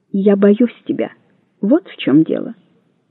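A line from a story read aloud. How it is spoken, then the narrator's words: Quiet. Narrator (Russian): она тихо сказала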